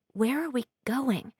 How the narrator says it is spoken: She whispers to Price

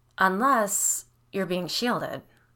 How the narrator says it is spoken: Biddy said slowly

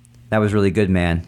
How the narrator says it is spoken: he said

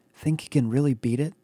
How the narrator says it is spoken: whisper from somewhere in the group

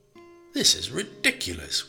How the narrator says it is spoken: Willie spluttered

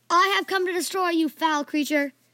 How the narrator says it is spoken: He regained his confidence, then raised the sword and yelled

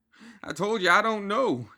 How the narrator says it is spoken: spluttered

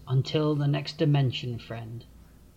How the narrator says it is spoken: Grig sadly whispers

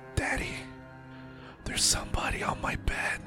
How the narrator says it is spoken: quivering and whispering

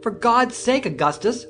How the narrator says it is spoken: screamed, now heartily frightened

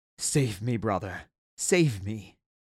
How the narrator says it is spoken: gasped his brother

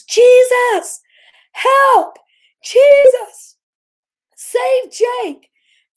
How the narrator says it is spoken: I yelled at the top of my lungs

